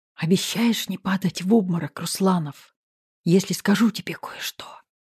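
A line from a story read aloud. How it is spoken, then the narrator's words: Whispered in ear. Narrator (Russian): Прошептала я ему на ухо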